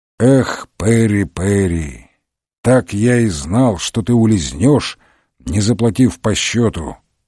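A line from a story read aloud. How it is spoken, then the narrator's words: Sad. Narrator (Russian): печально произнес он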